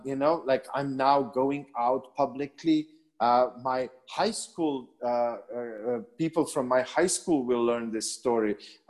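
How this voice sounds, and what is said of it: Slight non-native English accent. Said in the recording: “English is not my first language. It's only my third language ... I still have a, a bit of accent”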